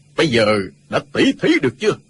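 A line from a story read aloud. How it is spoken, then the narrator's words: Loud speech. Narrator (Vietnamese): lớn tiếng nói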